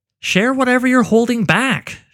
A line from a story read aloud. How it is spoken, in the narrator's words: she cried out